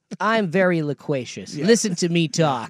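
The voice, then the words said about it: Imitates another person's voice. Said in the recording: “That's actually a pretty good impersonation of him.”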